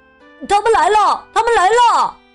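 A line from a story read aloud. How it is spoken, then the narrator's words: Children shouting. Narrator (Chinese): 孩子们喊起来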